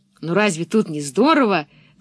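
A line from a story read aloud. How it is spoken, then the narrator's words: Exclaiming. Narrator (Russian): воскликнул Томми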